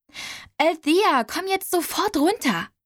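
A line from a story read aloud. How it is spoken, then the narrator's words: Calling out. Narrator (German): rief Delia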